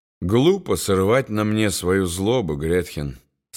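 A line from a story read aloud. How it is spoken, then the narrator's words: Forced calm. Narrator (Russian): стараясь говорить спокойно, заметил Рудольф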